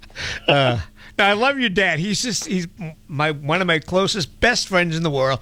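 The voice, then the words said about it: Emotional, tearful speech. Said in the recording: “Now I am going to get emotional now ... Oh my God, he's crying! ... He's crying on the air.”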